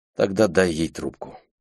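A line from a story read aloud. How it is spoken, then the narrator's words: Sighing. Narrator (Russian): Люси вздохнула и сказала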